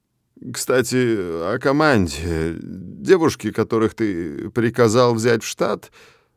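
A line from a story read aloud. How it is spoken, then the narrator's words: Mumbling under breath. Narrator (Russian): Мямлит себе под нос Блэк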